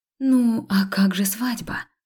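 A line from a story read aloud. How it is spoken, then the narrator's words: Breathless. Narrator (Russian): выдохнула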